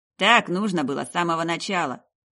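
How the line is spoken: Sulky teenage grumble. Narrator (Russian): проворчал Рыжий, насупившись, как какой-то подросток

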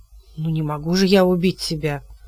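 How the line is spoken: Confused mutter. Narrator (Russian): пробормотал Хилот, окончательно сбитый с толку

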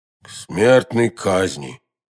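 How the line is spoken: Two hollow voices together. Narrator (Russian): глухим голосом ответили оба мушкетера

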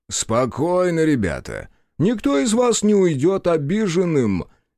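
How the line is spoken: Loud, lordly middle-aged man. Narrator (Russian): Громко и несколько вальяжно произнес стоящий в толпе мужчина лет 50

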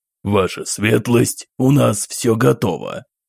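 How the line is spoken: Husky elderly male voice. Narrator (Russian): Раздался хрипловатый голос пожилого мужчины

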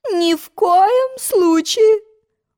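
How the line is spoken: Queen's exclamation. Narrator (Russian): воскликнула королева

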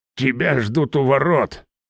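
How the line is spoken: Grumbled. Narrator (Russian): проворчал Гагиил

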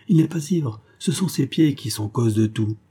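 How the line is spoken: Exclaiming. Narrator (French): s'écria

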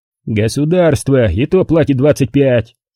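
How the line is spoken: Offended booming. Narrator (Russian): Обиженный то ли на профундо, то ли на размер вознаграждения, прогудел тесть

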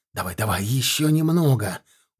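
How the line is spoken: Straining mutter. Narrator (Russian): упершись ногами в каменную горловину ямы, бормотал Тимофей

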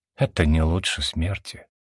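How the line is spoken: Heavy sigh. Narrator (Russian): тяжело вздохнул Вальтер

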